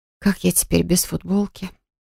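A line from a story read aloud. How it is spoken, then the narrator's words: Muffled whisper. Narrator (Russian): прошептала в его шею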